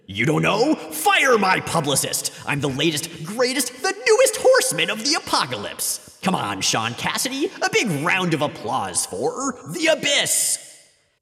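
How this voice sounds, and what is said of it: Villain character voice. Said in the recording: “doing that voice like Mojo, but shittier”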